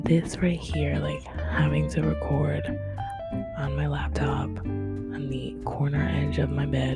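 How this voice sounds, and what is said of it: Quiet, subdued speaking voice. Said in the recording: “I'm kind of speaking like, not sort of monotone, but I do have to be sort of kind of quiet”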